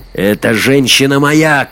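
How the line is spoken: Shout. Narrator (Russian): крикнул Лорхи

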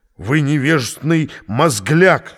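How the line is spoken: Strained hoarse rasp. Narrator (Russian): сорванным голосом хрипел

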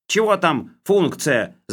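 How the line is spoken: Yelled. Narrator (Russian): заорал Хлебоводов

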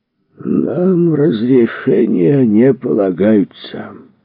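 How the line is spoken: Lazy bearded man. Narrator (Russian): лениво говорил бородач

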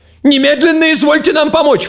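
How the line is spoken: Breathless falsetto shout. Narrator (Russian): фальцетом закричал врач, подбегая

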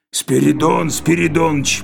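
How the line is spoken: Hoarse rasp. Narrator (Russian): прохрипел он

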